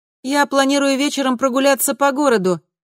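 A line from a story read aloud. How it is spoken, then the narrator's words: Shout from another room. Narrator (Russian): крикнула Камилла из комнаты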